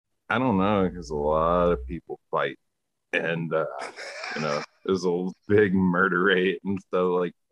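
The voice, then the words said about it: Southern American accent. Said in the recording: “as I can tell by your accent ... you're a Southerner”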